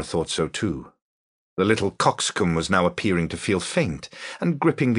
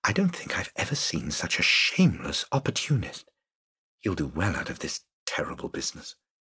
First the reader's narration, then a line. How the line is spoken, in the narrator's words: The woman whispered